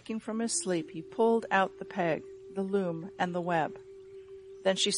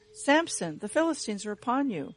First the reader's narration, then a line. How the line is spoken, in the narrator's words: cried to him